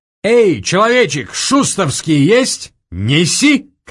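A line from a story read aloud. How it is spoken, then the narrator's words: Shouted. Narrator (Russian): крикнул гусар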